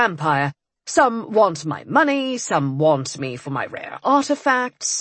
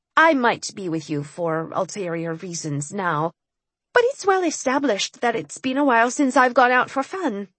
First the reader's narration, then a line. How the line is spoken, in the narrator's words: I said in a carefully nonchalant tone